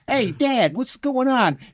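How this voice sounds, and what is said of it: Put-on Brooklyn accent. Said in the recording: “he's straight out of Brooklyn. Like, he works in a deli.”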